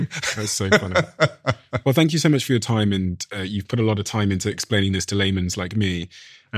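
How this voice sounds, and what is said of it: British accent. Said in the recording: “I think Americans like the British accent.”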